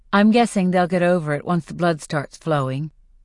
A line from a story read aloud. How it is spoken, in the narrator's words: I say flatly